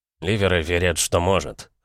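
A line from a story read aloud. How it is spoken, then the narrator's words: Snort. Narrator (Russian): хмыкнул Келли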